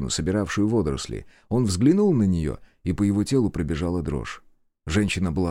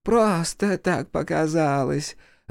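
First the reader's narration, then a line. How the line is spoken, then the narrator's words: Laughing. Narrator (Russian): рассмеялась она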